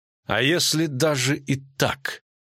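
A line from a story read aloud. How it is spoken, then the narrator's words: Queen speaking through teeth. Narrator (Russian): процедила королева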